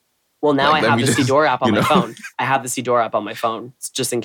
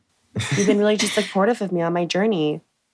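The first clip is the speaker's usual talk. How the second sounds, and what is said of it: Beauty vlogger impression voice. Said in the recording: “This is my impression of a beauty vlogger on YouTube.”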